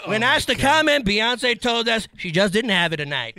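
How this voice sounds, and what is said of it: Entertainment news reporter voice. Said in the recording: “I don't know who I was trying to impersonate. ... It's like a little Pat O'Brien. Old school Access Hollywood”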